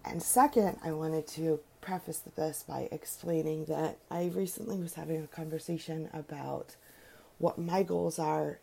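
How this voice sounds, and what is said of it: Slightly raspy voice. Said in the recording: “I think I'm a little raspy today, not feeling so great”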